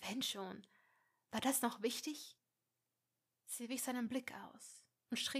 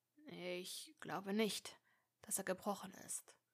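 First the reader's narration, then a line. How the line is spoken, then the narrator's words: Murmuring. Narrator (German): murmelte er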